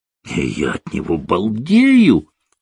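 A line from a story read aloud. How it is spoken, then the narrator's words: Exclaiming. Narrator (Russian): воскликнул Орландо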